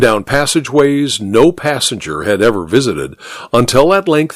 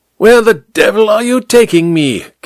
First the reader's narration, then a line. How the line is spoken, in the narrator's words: King Kong leaned close to shout the words into Amberly's ear